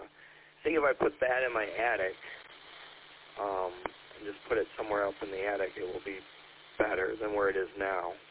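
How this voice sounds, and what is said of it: Hoarse, weak, failing voice. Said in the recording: “sorry, my voice is gone.”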